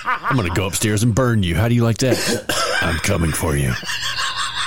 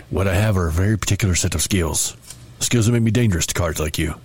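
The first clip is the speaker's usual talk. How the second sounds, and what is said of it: Poor imitation of another person's voice. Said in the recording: “I do a terrible Liam Neeson impersonation.”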